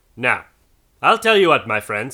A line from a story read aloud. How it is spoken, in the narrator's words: said Scrooge